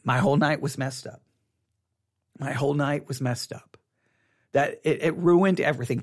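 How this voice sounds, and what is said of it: Frustrated, upset tone. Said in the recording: “hear the frustration in my voice”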